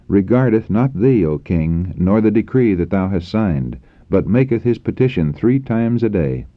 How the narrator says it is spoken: exclaimed

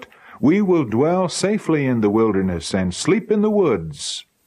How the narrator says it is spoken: we all cried out

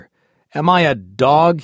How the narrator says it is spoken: he exclaimed

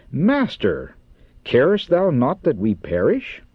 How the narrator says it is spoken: In amazement and despair exclaim

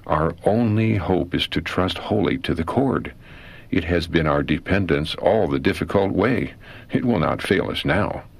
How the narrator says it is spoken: Then we exclaimed

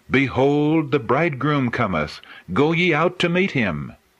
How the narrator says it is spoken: the angels cried

